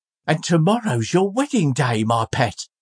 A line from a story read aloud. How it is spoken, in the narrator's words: cried Trotty